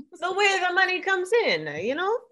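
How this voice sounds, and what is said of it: Put-on Italian mafioso accent. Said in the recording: “that was my take on an Italian accent... Because it's very mafioso. Italian.”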